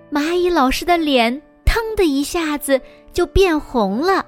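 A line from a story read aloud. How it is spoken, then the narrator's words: Loud. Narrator (Chinese): 长颈鹿和恐龙大声说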